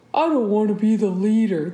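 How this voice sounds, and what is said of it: Imitates a TV character's voice. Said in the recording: “my Jon Snow impression ... that's actually what he sounds like”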